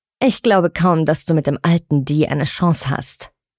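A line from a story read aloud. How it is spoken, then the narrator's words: Loud. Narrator (German): sagte Penelope laut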